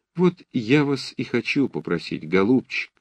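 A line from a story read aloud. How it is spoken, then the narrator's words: Sweet, ingratiating tone. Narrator (Russian): продолжал Лещенко умильным тоном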